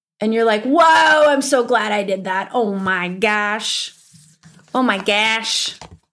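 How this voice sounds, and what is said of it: Upper Midwestern American accent. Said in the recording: “My upper Midwestern accent coming out.”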